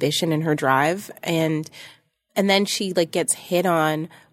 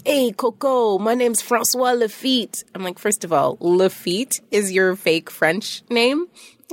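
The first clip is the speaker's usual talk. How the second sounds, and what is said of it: Put-on French accent. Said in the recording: “you had a really great French accent there, actually”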